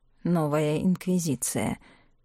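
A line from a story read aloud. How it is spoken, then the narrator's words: Muttering. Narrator (Russian): бормотал Елизар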